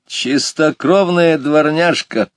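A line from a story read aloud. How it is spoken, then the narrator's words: Laughing. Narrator (Russian): рассмеялся ловец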